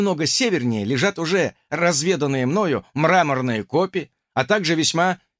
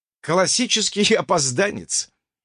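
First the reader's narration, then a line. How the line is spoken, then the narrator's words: Joyless dragon's snort. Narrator (Russian): невесело хмыкнул дракон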